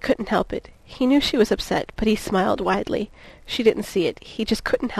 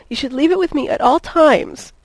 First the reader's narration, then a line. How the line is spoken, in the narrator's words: she whimpered